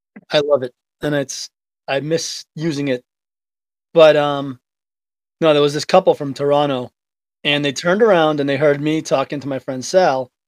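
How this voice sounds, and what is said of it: Thick Boston Revere accent. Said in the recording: “being from Revere, we have a really thick accent, which I've kind of lost a little bit ... the Revere accent”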